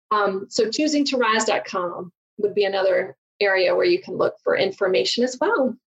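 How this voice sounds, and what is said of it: Southern American accent. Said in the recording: “because of my southern accent. Everyone makes fun of me.”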